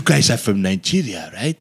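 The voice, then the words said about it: Put-on South African accent. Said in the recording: “they have the very, very distinct accent... why does she sound like the bad guy from Lethal Weapon 2?”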